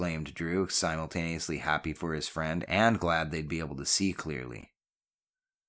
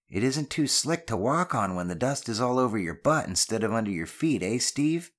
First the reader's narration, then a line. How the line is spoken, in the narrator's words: Ben called out with a friendly jibe